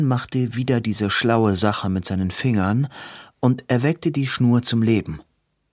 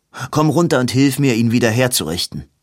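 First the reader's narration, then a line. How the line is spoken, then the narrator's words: Called out. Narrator (German): rief Edwin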